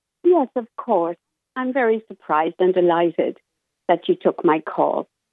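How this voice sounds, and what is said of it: Beautiful accented voice. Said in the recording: “I love your accent. Oh, my goodness. You sound like an angel. You sound so beautiful.”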